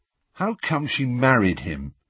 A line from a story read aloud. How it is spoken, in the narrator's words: Harry asked miserably